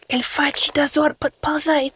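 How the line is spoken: Whispering in ear. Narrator (Russian): прошептал Кусимар мне в ухо

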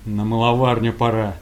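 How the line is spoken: Calm young man's question. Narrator (Russian): парень спокойно спросил

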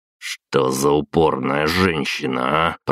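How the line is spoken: Grumbled. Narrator (Russian): проворчал

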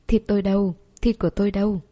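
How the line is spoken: Loud booming barking. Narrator (Vietnamese): Nó sủa oang oang

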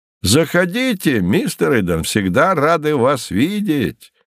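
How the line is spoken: Cheerful shouts after someone. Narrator (Russian): весело кричали ему вдогонку

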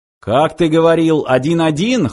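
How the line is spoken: Smirking snort. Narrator (Russian): хмыкнул Фыв

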